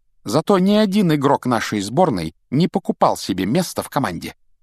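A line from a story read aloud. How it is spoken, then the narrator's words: Clipped, emphatic. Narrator (Russian): отчеканила Гермиона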